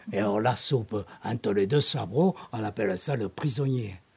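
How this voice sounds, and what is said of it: Light southern French Aveyron accent. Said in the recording (French): “mon léger accent qui sent la montagne du sud, les airs qui roule dans l'accent du terroir, c'est l'Aveyron”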